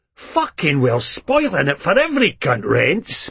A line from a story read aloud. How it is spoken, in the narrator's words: Begbie growls